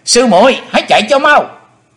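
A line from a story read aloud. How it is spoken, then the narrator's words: Joyful shout. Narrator (Vietnamese): U Linh công tử hoan hỷ hét lớn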